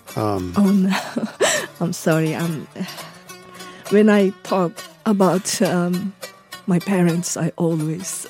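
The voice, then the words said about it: Tearful, emotional voice. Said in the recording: “I'm sorry to make you cry. ... getting emotional”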